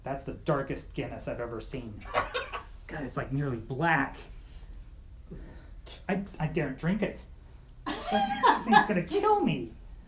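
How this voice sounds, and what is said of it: Poor put-on Irish accent. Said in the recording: “you've got to work on your Irish accent. It's terrible.”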